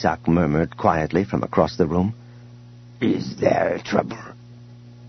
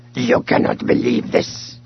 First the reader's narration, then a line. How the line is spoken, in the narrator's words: he growled, disgustedly